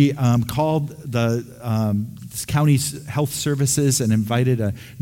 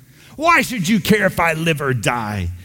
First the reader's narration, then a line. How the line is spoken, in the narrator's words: He asked indignantly